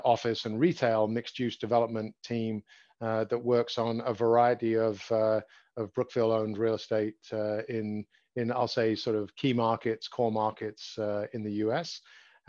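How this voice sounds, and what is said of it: Slight English accent. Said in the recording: “I sense a little bit of an accent there ... I grew up in London, England”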